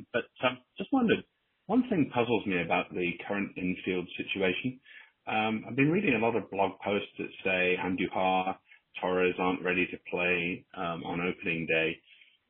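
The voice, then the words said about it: British accent. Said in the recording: “You can probably tell by my voice that I'm a Brit”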